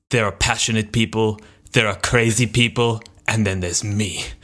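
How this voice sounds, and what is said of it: Weirdly ambiguous imitated accent. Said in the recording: “He goes in this, like, weirdly ambiguous accent.”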